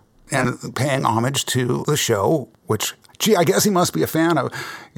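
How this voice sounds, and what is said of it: Hoarse, damaged-sounding voice. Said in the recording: “my voice is really messed up”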